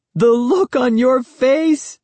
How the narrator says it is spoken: she exclaimed when she finally stopped laughing

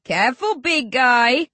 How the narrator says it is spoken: Rage laughs

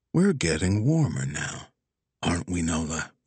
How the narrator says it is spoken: Wags whispered

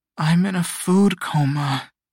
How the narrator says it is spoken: Shio groaned

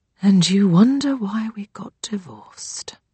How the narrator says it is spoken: mutters my mother beneath her breath

